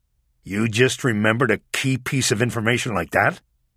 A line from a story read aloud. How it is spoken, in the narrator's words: asked angrily